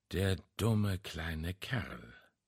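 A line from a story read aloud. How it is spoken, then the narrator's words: Muttered. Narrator (German): murmelte er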